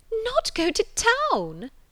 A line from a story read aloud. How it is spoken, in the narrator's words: cried Mrs